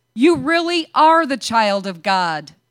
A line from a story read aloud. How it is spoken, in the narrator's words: they exclaimed